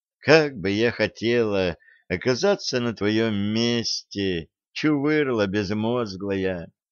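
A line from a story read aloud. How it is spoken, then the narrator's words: Wistful sigh. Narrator (Russian): вздохнула старлетка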